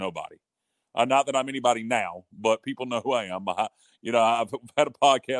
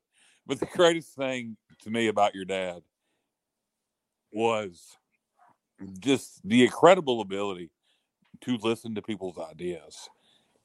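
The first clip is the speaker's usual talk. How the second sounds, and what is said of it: Emotional, choked-up speech. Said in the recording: “getting emotional”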